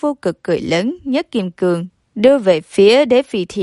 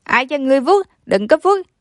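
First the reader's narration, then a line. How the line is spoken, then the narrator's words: Desperate loud yell. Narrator (Vietnamese): Nó liều mạng dãy dụa, hét lớn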